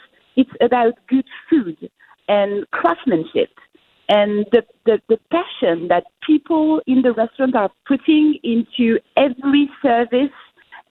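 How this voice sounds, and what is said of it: Dignified foreign accent. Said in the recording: “You have by far the most dignified accent that we've had on this program in at least a week.”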